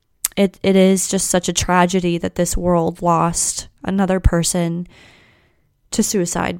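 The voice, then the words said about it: Emotional, strained voice. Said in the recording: “This topic is really tough for me to talk about, as you can probably hear in my voice.”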